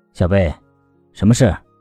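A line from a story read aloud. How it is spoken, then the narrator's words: Low, faintly tender. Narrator (Chinese): 思南 他的声音很低，还带了淡淡的柔意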